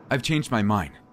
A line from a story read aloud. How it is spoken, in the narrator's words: I said as firmly as I could, despite the dread in my chest